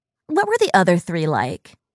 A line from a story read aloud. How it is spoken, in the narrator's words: He laughed